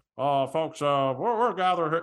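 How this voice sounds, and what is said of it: Imitates another person's voice. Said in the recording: “My James Stewart impression is not good today either.”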